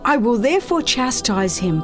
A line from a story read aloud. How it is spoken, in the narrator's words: Pilate said